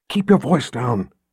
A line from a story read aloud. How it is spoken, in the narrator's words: Richard whispered